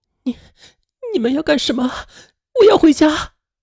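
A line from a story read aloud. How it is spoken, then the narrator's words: Frightened girl crying. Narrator (Chinese): 女孩被吓哭了，她哭着说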